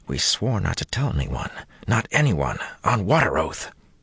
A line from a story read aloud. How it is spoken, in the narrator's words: One of the men, a young fellow with a pointed nose, whispered fierce and low